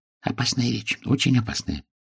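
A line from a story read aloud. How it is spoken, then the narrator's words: Whisper. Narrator (Russian): заместитель директора шепнул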